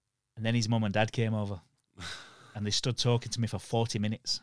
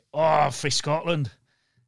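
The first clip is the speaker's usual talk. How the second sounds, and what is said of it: Put-on Scottish accent. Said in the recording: “I put on a Scottish accent”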